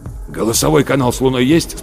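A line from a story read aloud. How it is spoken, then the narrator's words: Hoarse question. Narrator (Russian): спросил Рудольф Терентьевич хриплым голосом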